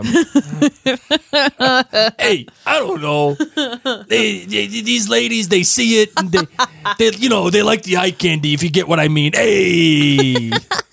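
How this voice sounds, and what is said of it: Imitates another person's voice. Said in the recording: “your Jeffrey Hirsch accent? ... Your Jeffrey Hirsch voice is premium.”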